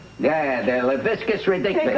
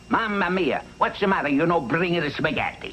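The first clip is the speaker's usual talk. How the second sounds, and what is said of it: Put-on Italian accent. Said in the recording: “You ever hear my Italian accent?”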